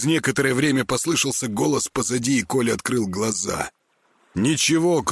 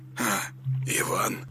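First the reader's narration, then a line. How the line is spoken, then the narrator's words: Mumbling. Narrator (Russian): промямлил он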